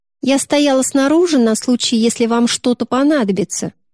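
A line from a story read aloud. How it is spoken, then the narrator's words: Plain, girl. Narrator (Russian): говорит девочка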